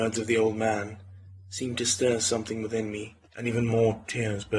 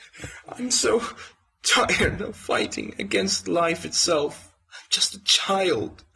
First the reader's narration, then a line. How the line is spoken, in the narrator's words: sobbed into the man's shoulder